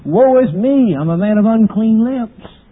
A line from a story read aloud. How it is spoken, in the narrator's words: men have cried